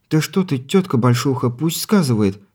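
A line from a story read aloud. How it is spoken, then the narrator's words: Pleading female voice. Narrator (Russian): взмолилась Смеяна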